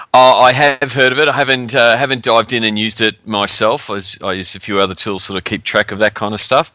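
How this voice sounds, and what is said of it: Australian accent. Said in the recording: “that lovely Australian accent you hear is the voice of our guest”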